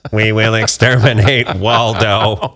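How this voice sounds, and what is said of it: Robotic Dalek-style voice. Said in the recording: “It's one of the bad robots from Doctor Who.”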